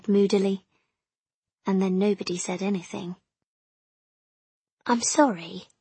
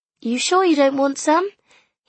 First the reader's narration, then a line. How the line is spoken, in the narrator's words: he said cheerfully